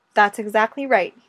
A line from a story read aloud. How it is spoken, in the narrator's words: said